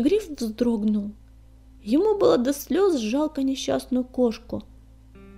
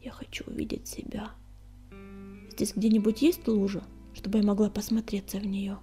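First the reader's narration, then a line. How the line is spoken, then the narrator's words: Barely audible after gulping. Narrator (Russian): судорожно сглотнув, и еле слышно закончила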